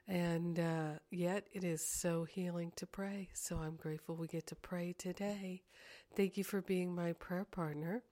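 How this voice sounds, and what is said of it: Slightly scratchy, congested voice. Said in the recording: “I've got a little sinus thing going on. My voice is a little scratchy.”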